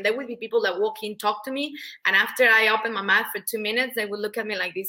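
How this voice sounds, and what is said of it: Mexican Spanish accent in English. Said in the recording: “It was because of my accent; they could barely understand ... I'm from Mexico, in case you're trying to guess the accent”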